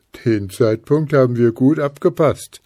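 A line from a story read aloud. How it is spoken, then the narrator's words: Hedgehog laughing. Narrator (German): lachte der Igel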